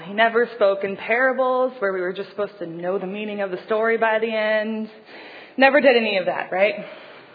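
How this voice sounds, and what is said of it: Sarcastic tone. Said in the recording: “my tone ... I'm being sarcastic.”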